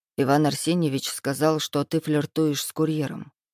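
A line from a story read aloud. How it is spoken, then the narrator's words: Muffled, against lips. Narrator (Russian): глухо сказал ей в губы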